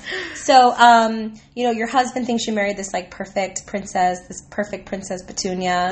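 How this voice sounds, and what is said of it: Voice affected by a cough. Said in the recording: “everyone knows that I have this cough ... My voice sound. This is my sexy voice.”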